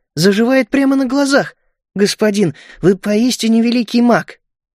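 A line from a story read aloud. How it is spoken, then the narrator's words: Relieved exhale. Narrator (Russian): я облегченно выдохнул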